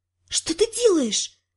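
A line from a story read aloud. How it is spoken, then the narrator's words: Whispered. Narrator (Russian): прошептала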